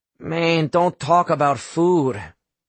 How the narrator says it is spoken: Adelio groaned

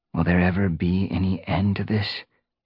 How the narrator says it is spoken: He murmured

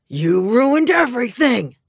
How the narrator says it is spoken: he howled

